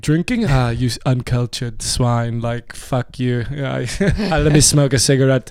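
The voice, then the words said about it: Put-on European accent. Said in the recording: “What accent was that? ... From what part of Europe would you? ... Cologne.”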